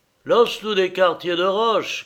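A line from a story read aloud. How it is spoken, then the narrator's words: Shouted. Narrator (French): cria Ulysse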